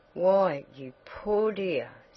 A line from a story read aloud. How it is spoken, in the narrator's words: sighed Mrs